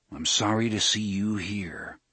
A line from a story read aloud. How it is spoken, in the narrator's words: Roland said gravely